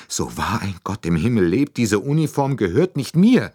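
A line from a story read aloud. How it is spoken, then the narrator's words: Cried out. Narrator (German): rief sie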